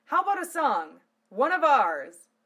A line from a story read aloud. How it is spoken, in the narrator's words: Lena shouted above the din